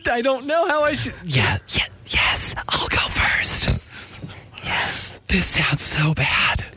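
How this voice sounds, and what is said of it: Stage whisper. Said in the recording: “sounds like he's stage whispering”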